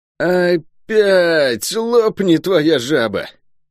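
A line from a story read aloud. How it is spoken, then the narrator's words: Muffled groan. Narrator (Russian): простонал Лук из-под надвинутого на лицо капюшона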